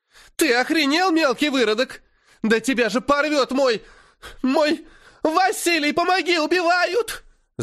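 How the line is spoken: Terrified piercing shriek. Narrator (Russian): Завизжала она, как резаная, когда я двинулся на нее

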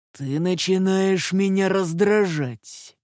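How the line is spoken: Menacing growl. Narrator (Russian): прорычал Властер с угрозой

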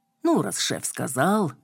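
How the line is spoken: Grumbling. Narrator (Russian): проворчала я

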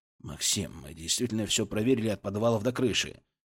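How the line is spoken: Soft, gentle. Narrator (Russian): мягко начал он

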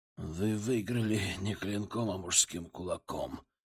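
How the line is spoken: Hoarse reply. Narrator (Russian): хриплым голосом отвечал он мне

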